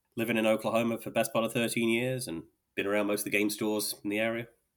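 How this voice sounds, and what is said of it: British accent. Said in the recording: “Don't let the accent confuse you... Originally from the UK.”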